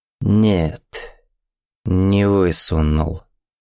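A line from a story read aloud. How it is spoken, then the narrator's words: Slow speech. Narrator (Russian): медленно сказал он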